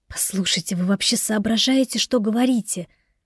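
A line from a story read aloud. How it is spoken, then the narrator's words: Hiss. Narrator (Russian): зашипела она на него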